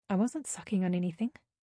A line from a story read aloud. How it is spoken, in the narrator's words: I muttered, feeling my cheeks go red